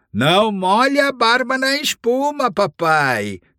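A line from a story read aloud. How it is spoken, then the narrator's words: Shouting together. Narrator (Portuguese): gritaram para Thorin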